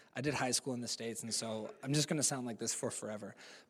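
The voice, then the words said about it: American accent. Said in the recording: “sound American, but I'm more Kiwi than I am American. My accent”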